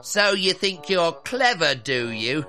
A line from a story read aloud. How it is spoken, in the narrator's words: whined